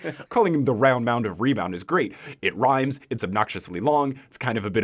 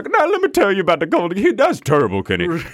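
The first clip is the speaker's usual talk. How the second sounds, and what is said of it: Imitates another person's voice. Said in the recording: “That is a very bad Charles Barkley impression. ... Okay, that was pretty good.”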